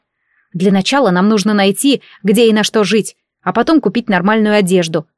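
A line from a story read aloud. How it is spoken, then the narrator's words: Plain. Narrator (Russian): ответила я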